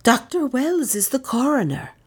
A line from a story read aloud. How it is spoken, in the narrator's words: offered Lizzie eagerly